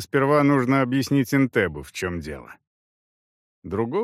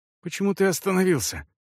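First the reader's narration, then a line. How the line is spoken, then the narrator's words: Breathless exhale. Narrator (Russian): выдохнула она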